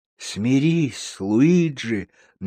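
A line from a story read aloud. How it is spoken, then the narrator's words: Soft reply. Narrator (Russian): мягко ответил худой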